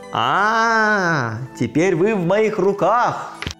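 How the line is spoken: Loud shout. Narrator (Russian): Иван крикнул громким голосом

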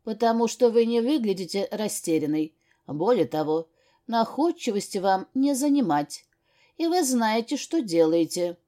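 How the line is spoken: Calm explanation. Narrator (Russian): спокойно объяснил он мне

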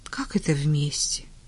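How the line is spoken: Tired surprise. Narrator (Russian): устало удивилась Таня

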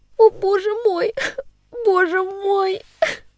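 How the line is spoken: Sobbing, breathless child babbling. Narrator (Russian): Всхлипывая и задыхаясь, в своем волнении лепетала девочка

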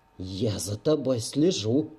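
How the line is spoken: Sharp whisper. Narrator (Russian): резко прошептала та

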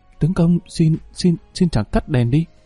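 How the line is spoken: Shy, trembling sweet pleading. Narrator (Vietnamese): Nàng ngượng, giọng run rẩy ngọt ngào, nàng cầu khẩn

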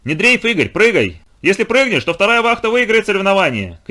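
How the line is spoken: Shouting from below. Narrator (Russian): крикнул кто-то снизу

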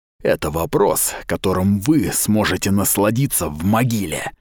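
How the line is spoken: Hissed. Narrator (Russian): прошипел Каустус

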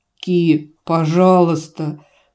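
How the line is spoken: Desperate whimpering. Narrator (Russian): скулит в отчаянии шлеп

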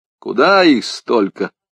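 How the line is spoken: Grumbled. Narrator (Russian): пробурчал

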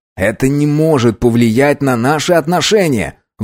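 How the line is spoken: Exclamation. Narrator (Russian): воскликнул Чарльз

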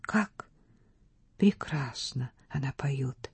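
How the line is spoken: Whispered. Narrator (Russian): шепнула Стефа

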